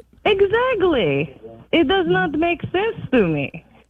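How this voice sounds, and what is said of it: Speaks with a foreign accent. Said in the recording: “I'm hearing an accent”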